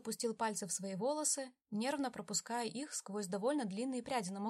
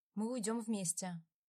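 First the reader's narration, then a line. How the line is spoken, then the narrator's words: Plain. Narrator (Russian): наконец сказал он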